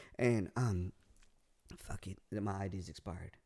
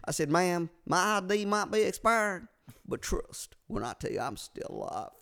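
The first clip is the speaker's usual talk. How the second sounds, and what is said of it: Fairly good put-on Southern accent. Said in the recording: “It's pretty good. The accent's pretty good. ... it's not bad. ... Southern accents”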